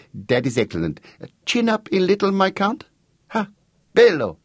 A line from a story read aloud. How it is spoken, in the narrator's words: cried